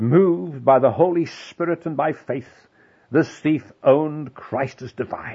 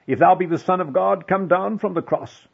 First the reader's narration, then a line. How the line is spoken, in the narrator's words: The priests cried out